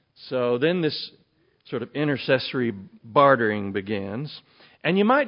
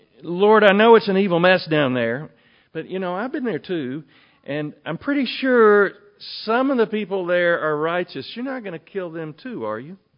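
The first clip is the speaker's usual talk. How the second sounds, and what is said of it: Put-on Texan accent. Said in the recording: “I tried to get down the Russian Jewish sort of dialect accent at the turn of the last century ... it kept coming out like the Godfather ... I'm gonna do it in Texan.”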